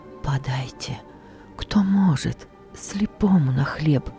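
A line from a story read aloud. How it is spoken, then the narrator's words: Quiet whisper. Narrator (Russian): Не крик, только шепот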